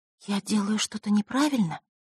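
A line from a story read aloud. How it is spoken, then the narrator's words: Quiet whisper. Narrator (Russian): тихо прошептала та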